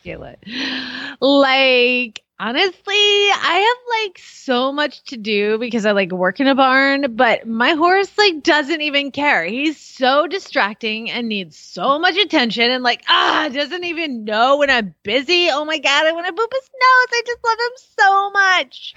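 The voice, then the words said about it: Valley Girl voice. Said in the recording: “I'm going to type this on my most Valley Girl voice, and I expect it to be read accordingly.”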